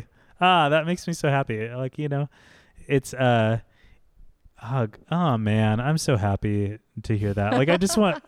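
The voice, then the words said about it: Emotional, teary voice. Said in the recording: “I'm getting a little teary.”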